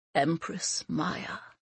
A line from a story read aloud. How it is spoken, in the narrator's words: whispered the Prime Minister in a reverent tone